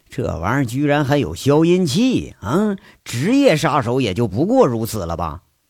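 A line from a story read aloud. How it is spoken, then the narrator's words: Sighing remark. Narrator (Chinese): 当兵出身的他 叹了一句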